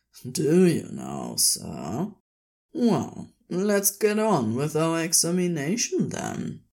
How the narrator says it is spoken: Crowley purred

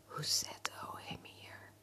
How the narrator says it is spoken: He asked in a whisper

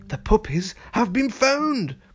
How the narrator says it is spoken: cried Pongo

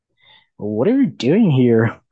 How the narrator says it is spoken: asked with a laugh

